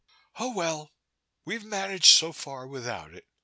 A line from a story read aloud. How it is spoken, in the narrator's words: she said cheerfully